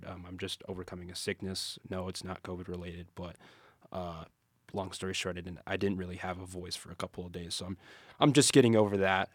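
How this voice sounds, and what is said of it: Raspy, nasal voice. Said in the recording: “my voice is like a little raspy or nasally or whatever”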